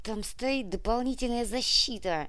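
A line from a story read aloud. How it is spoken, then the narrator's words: Muttered through clenched teeth. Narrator (Russian): Сквозь зубы процедил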